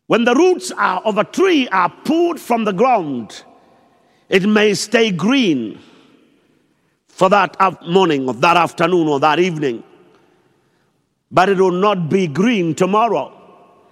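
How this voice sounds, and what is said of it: Shouting preacher. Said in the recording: “Why am I shouting?”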